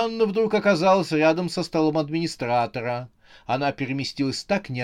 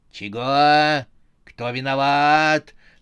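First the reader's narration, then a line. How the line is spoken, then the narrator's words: Menacing. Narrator (Russian): грозно проговорила Сюзанна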